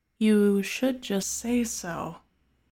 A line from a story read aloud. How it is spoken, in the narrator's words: murmurs